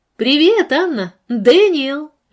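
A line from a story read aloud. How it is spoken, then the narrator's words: Cheerful shout. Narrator (Russian): весело крикнула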